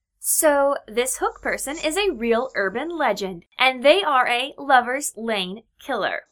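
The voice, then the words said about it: Mock presenter voice. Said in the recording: “do my presenting voice?”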